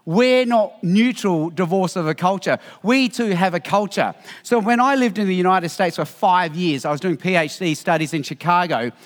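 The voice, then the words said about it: Australian accent. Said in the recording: “I love your Australian accent”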